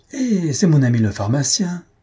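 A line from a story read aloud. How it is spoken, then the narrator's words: Exclaimed. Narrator (French): s'écria Bengali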